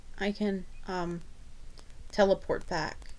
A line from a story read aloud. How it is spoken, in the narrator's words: she says